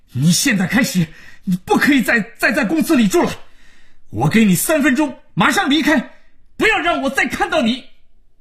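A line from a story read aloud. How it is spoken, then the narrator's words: Furious, out of control. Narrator (Chinese): 恼羞成怒，丧失了理智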